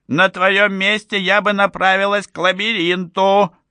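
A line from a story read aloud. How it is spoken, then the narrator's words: Shouting after someone. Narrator (Russian): крикнула вслед Лулу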